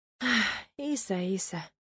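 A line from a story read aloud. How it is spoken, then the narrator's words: Sigh. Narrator (Russian): вздохнула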